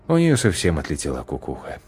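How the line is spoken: Sighing. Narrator (Russian): вздохнул Творцов

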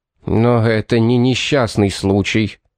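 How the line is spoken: Through gritted teeth. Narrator (Russian): процедил Мэтью

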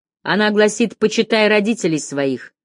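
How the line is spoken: Shouted out. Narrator (Russian): выкрикнул Деккер

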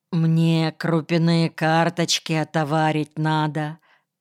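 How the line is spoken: Plain. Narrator (Russian): ответил Вовка

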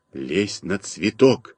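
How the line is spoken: Quiet whisper. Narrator (Russian): тихо шепнул я Малинину

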